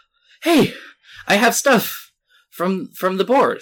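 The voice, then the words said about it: Breathless, out-of-breath delivery. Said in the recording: “out of breath”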